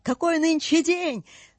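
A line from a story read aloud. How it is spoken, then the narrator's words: Shouted. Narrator (Russian): свесившись вниз, крикнул Скрудж какому-то мальчишке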